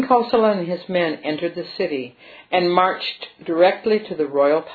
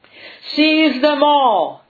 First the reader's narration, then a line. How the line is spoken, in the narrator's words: cried King Kosala